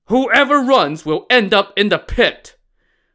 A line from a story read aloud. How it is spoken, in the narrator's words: Lu Zhishen roared